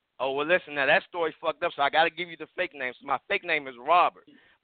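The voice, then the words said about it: D.C. Maryland accent. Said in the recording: “He got that straight D.C. Maryland accent. You can tell he's D.C. That's a D.C. accent, D.C. PG County accent”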